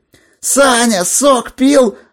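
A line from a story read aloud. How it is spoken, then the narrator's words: Fans yelling back. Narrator (Russian): завопили в ответ поклонники Горелина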